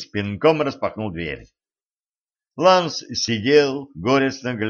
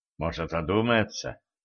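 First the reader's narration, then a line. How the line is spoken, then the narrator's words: Growled. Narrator (Russian): Кэтран зарычала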